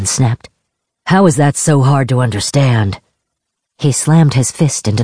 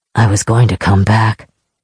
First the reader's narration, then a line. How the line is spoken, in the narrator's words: Kalyan said quietly